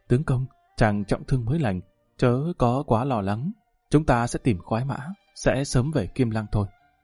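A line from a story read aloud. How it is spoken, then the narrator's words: Gentle speech. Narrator (Vietnamese): Tiền Nhi nhẹ nhàng nói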